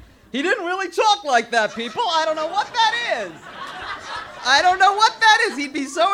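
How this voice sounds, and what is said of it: Usual voice. Nothing is said of it.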